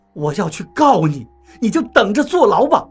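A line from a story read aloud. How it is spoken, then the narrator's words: Shouting angrily. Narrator (Chinese): 董玲对着熊哥喊道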